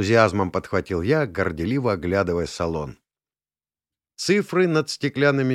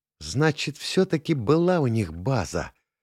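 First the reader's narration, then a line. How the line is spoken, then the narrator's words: Loud whisper. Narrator (Russian): громко зашептала Таля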